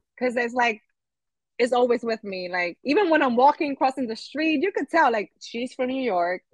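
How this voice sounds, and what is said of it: New York accent. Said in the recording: “Your accent. And I'm like, oh my God, do I have a New York accent?”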